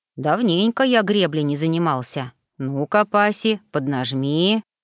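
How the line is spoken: Muttering mastiff. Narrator (Russian): пробормотал мастиф

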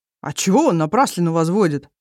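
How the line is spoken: Offended. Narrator (Russian): обиженно отвечает Ирлик

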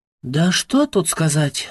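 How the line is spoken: Sighed. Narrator (Russian): вздохнула она

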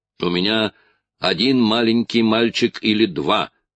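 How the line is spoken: Shouting after someone. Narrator (Russian): крикнул ему вслед Джек

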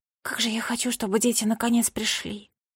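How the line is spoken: Whispered. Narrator (Russian): прошептала Бунтесса Книгс

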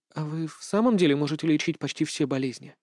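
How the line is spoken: Timid question. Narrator (Russian): Молчавшая до этого большую часть вечера Рута робко задала вопрос

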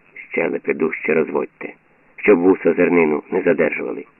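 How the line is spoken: Very quiet advice. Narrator (Ukrainian): Один зовсім тихо порадив сусідові

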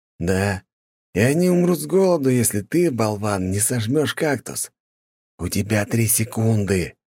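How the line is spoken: Threatening hiss. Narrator (Russian): прошипел Михаил

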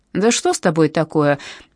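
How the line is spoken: Displeased snort. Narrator (Russian): недовольно фыркнул Дэвид

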